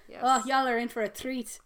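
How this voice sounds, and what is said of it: Attempted put-on accent. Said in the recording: “brush up on my accent so I can do a lot of accent work... Why did I say y'all in the accent I was trying to do?”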